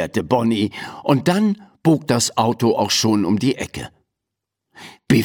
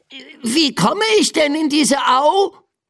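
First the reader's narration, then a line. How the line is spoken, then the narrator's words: Shouted. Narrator (German): rief Biff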